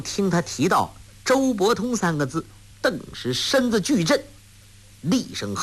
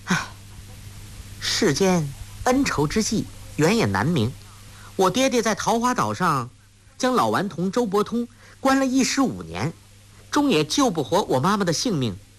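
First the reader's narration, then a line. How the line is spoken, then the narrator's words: Sighing. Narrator (Chinese): 黄蓉叹道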